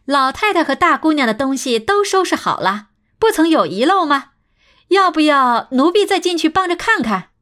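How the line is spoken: Beaming, feigned respect. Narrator (Chinese): 两个仆妇眉开眼笑地说着，状似恭敬地道

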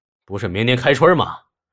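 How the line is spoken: Exclaiming. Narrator (Chinese): 白克龙叫了起来

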